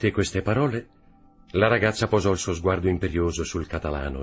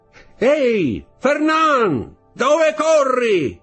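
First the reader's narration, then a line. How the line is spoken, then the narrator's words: Shouted. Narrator (Italian): gridò una voce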